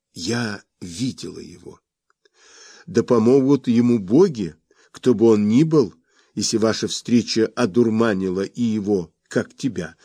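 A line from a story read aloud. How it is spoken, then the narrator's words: Laughing. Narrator (Russian): рассмеялся я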